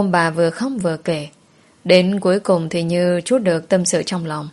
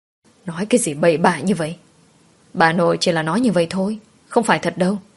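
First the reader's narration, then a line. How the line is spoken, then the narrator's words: Stern, admonishing. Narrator (Vietnamese): Mẹ chồng của tôi gằn giọng rồi khuyên nhủ tôi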